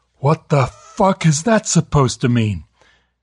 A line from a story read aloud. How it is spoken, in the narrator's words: Pete bellowed